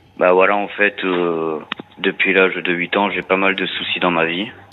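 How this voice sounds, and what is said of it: Slight southern French accent. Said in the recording (French): “vous avez un petit accent... le sud”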